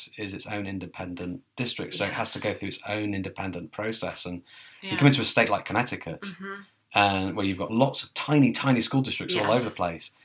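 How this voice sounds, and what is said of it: Non-American foreign accent. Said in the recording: “you weren't born in America. People can probably guess that from your accent.”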